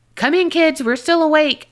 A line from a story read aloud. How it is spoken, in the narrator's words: yell